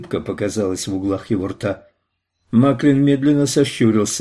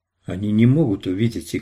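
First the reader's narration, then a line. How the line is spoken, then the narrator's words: Calm. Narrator (Russian): сказал Роланд спокойно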